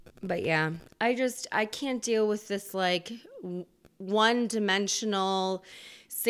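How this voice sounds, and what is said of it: Usual voice. Nothing is said of it.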